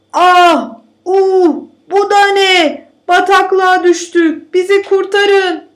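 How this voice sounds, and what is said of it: Shouting hunters in a story. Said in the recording (Turkish): “diye bağırmaya başlamışlar”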